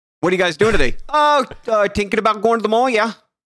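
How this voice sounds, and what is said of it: Put-on Canadian accent, questioning lilt. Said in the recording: “Canadian accent ... you got to make things that aren't questions sound like questions ... Everything has to be a question ... That's dead on balls accurate.”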